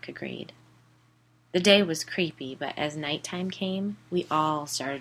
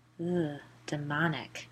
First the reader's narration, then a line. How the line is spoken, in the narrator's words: I said quietly